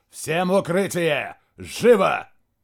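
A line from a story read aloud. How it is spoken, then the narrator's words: Barked command. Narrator (Russian): генерал рявкнул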